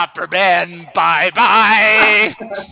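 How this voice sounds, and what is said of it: Opera man character voice. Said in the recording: “do the voice ... do the opera man voice”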